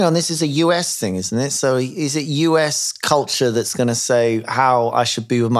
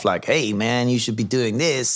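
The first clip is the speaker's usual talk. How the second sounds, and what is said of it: Bad put-on American accent. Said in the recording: “you have to use an American accent. ... It was a bad American accent”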